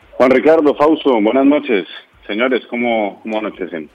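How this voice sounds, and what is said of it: Deep, polished radio announcer voice. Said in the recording (Spanish): “Nos recibe usted con una voz de locutor.”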